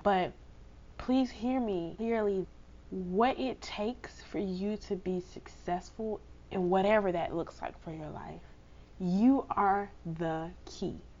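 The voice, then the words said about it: Subdued voice recovering from cold. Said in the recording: “I'm not probably my usual loud and bubbly self. I actually got a cold ... my voice is still kind of recovering from this cold”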